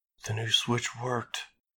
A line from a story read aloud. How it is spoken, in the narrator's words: Marie breathed